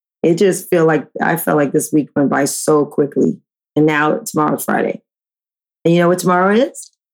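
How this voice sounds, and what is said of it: Scratchy, rough voice. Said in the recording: “scary voice ... Just scratchy voice ... I like when your voice is like that. It's kind of sexy.”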